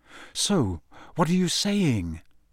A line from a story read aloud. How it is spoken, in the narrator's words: said Harry slowly